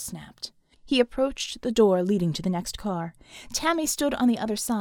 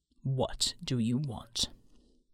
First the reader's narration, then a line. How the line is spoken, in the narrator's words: Tammy chuckled, her voice dropping an octave